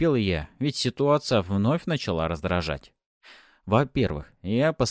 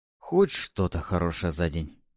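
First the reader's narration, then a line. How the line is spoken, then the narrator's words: Pleased muttering. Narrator (Russian): довольно пробормотал я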